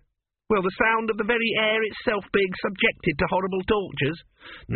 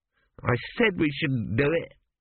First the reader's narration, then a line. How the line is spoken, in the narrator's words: muttered the accountant